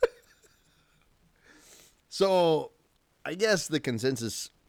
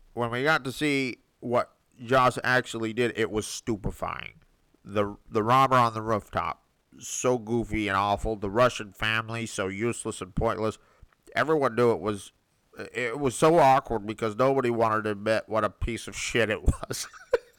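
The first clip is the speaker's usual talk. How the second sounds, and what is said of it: Nasal held-nose put-on voice. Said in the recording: “I'm trying to hold my nose and do a voice.”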